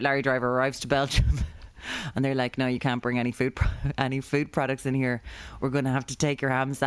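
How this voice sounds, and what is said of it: Usual voice. Nothing is said of it.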